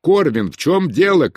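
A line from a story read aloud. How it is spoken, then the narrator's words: Shout. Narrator (Russian): крикнул Бенедикт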